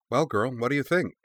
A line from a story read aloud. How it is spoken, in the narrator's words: she asked